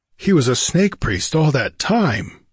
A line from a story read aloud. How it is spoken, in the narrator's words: gasped the king